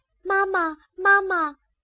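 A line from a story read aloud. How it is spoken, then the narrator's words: Hurried calling. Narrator (Chinese): 他们连忙追上去叫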